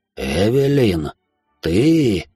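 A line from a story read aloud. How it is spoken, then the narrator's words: Shocked whisper. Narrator (Russian): прошептал с резко побелевшим лицом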